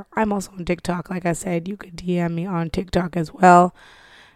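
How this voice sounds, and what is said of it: Hoarse, fading voice. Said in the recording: “As you can tell, I'm losing my voice.”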